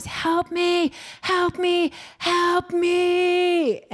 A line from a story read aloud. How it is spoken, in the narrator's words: I screamed many times